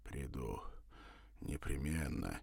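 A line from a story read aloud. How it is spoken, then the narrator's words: Breathed out. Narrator (Russian): выдохнул Савва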